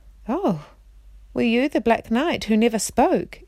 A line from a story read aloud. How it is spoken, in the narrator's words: exclaimed Jill